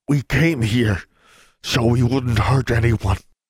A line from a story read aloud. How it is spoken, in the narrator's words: he panted